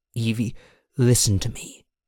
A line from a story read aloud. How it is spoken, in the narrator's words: Elandon murmured